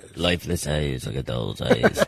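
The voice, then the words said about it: A good impersonation. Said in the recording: “That's a great impersonation.”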